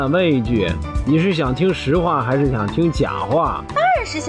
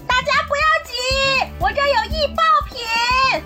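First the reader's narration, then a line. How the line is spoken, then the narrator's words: Mother shouting urgently. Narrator (Chinese): 老妈大声疾呼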